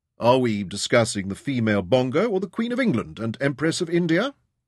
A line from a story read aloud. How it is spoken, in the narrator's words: Ryder asked